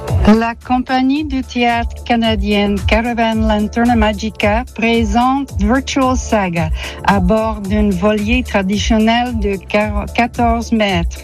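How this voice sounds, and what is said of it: Pretty Canadian French accent. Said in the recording (French): “avec son joli accent du Canada”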